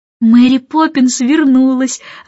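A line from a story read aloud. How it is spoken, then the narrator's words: Joyful, over the phone. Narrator (Russian): радостно сообщила в трубку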